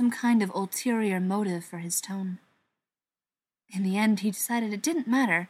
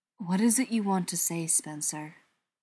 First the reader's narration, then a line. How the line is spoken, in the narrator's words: John asked gently